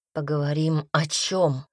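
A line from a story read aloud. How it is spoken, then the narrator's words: Said through gritted teeth. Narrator (Russian): процедил Пайер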